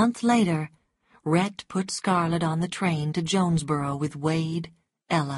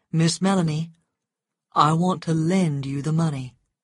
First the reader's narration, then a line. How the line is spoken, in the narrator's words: said Rhett